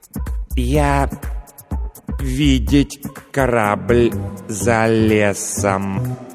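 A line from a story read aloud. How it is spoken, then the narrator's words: Slow. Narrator (Russian): медленно произнес лингуампир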